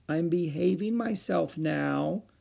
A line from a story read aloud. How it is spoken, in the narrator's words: she said meekly